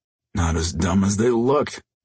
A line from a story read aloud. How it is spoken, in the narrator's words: Jason grunted